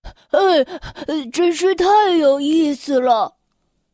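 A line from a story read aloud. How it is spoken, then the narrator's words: Breathless, panting. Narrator (Chinese): 巴豆气喘吁吁的说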